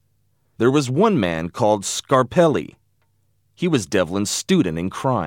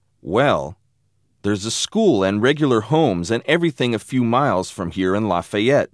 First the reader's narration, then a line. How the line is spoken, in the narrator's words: said Richie